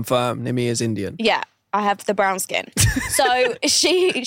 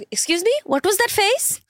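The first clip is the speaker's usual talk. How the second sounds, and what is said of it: Put-on Indian accent. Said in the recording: “she's an Indian woman, and I'm an Indian woman, so I can put on this accent”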